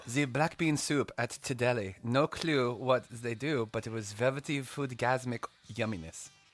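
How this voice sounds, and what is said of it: Attempted Swiss accent. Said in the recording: “You have to do it in the Swiss accent ... I can't do that. I can try. I can try. It'll just be horrible. ... Just don't make it sound like Hillary Swank.”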